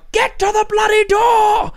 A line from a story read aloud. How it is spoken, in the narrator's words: shout